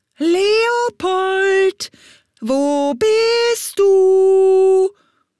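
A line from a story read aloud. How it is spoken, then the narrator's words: Loud two-voiced call. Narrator (German): ertönte es laut und zweistimmig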